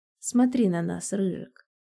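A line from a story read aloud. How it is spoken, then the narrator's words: Hoarse command. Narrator (Russian): Хрипло приказываю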